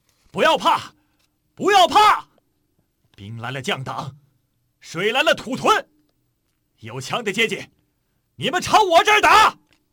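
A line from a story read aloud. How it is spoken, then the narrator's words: Loud shout. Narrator (Chinese): 江涛大喊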